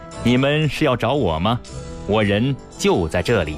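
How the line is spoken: Laughing. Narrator (Chinese): 有人笑道

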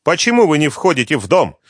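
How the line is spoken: Irritated question. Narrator (Russian): раздраженно спрашивает Хашимов

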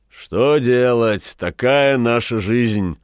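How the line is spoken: Amused sigh. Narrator (Russian): вздохнул Батредж, ухмыляясь

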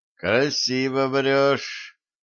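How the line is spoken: Distrustful grumble. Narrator (Russian): недоверчиво буркнул Рустем

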